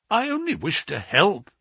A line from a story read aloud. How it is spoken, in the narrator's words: I exclaimed